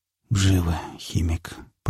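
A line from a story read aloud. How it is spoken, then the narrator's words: Mutter. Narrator (Russian): пробормотал напарник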